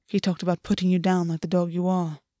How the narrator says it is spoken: August said quietly

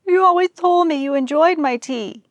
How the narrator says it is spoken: the old mare wailed

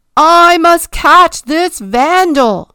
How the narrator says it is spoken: he screamed

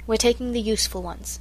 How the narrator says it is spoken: said Mother

